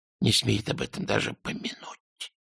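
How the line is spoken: Whispering. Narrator (Russian): прошептал Альберт

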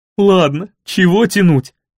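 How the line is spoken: After laughing. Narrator (Russian): отсмеявшись, сказала Лаюки

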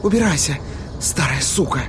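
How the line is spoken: Breathed out harshly. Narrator (Russian): выдохнула Сьюзан

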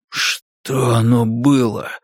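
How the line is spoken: Barely audible breath. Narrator (Russian): выдохнул Спалли почти неслышно

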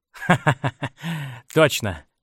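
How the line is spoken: Laughing. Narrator (Russian): рассмеялся Кленси

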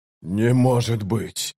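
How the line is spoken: Breathless exclamation. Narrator (Russian): выдохнул Ягут

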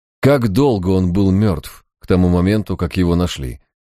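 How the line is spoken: Plain question. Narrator (Russian): спросил Харснет

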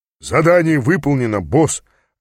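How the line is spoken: Barked right into ear. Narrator (Russian): рявкнул прямо мне в ухо Гесс

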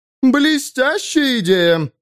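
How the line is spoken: Yelled. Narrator (Russian): заорала она

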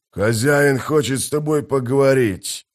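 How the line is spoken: Growled. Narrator (Russian): прорычал один из них

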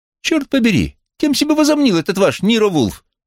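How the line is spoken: Indignant exclamation. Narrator (Russian): возмущенно воскликнул он

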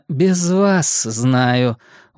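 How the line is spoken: Tired interruption. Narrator (Russian): устало оборвала его Кавахара

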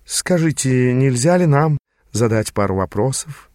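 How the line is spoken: Purring. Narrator (Russian): промурлыкала Тананда

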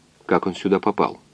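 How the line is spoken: Quiet question. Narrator (Russian): тихо спросил доктор

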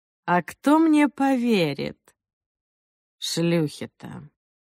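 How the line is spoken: Lazy reply. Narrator (Russian): Она ответила лениво

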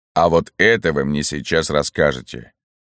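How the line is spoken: Menacing. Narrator (Russian): грозно сказал Берия

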